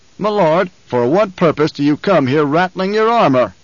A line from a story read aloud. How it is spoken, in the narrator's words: the Baron roared